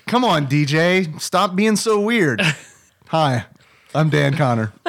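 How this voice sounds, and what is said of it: Impression of John Goodman. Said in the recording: “Here's my impression of John Goodman”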